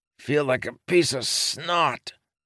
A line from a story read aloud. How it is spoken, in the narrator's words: Lopin said, groaning